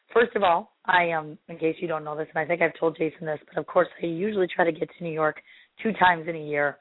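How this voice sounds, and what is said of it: Strained, failing voice. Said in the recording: “my voice is about to die on me”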